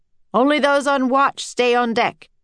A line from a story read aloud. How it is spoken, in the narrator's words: the captain shouted to his crew